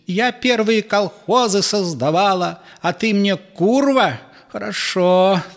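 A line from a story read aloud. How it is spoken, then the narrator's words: Mother-in-law shouting. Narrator (Russian): закричала теща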